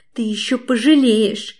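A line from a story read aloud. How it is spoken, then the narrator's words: Hissing through teeth. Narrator (Russian): Шипит сквозь зубы Светлана Степановна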